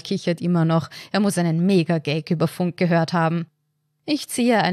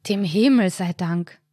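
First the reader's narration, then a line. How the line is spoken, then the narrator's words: Relieved sigh. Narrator (German): seufzt Karl dann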